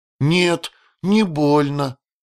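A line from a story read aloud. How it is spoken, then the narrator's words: Uncertain young girl. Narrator (Russian): неуверенно ответила девочка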